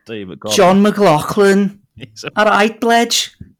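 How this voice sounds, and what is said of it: Exaggerated Scouse accent impression. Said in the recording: “my John McLaughlin impression ... He's basically just a Harry Enfield scouter, isn't he? In Wellies ... in his native tongue”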